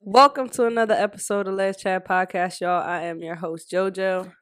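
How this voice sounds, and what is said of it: Voice sounds sick. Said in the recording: “Does my voice sound different? ... I think both our voices sound a little bit different. ... I'm low-key sick. ... So now we're kind of sick.”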